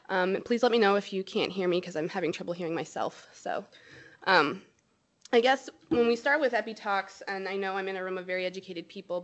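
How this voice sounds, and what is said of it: Nasal voice from a cold. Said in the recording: “I have a little cold, so it's kind of nasally.”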